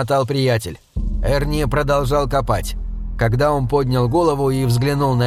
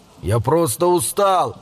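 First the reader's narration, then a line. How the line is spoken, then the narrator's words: Distant shout, running boy. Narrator (Russian): прокричал издалека убегающий мальчик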